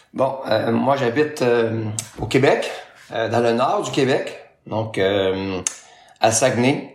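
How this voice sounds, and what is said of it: Non-European French accent. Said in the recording (French): “qui viennent de l'autre côté de l'Atlantique, mais on le reconnaîtra à ton accent. ... tu es francophone, mais tu ne viens pas d'Europe”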